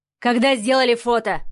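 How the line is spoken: Barked. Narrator (Russian): рявкнул Сава

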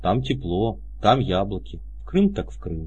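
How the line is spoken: Sad, smiling voice. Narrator (Russian): сказала Леська и грустно улыбнулась

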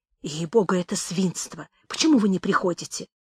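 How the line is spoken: Quick whisper. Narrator (Russian): быстро шептала мне

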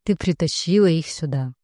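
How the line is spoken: Finishing another's sentence. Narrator (Russian): заканчивает Маркус за меня

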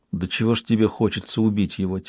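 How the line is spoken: Ship's quiet remark. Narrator (Russian): тихонько заметил корабль

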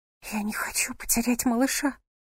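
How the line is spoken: Trembling whisper. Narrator (Russian): прошептала она ему в ухо дрожащим голосом

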